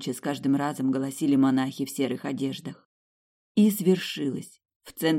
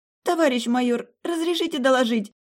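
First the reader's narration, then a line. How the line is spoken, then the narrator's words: Shrill, barely restrained. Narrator (Russian): Визгливо и еле сдерживаясь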